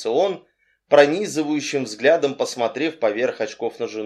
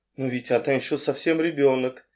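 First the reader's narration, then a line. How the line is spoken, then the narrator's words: Gentle objection. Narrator (Russian): мягко возразила миссис Ривз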